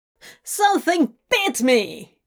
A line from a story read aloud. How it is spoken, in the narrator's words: he shouted angrily